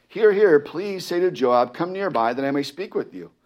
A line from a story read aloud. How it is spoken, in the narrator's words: a wise woman cried out from the city